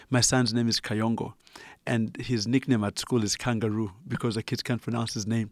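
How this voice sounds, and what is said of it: Ugandan accent. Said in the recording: “as you can tell from my accent, I'm originally Ugandan”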